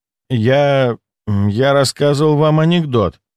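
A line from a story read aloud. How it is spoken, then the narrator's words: Uncertain. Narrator (Russian): неуверенно произнес он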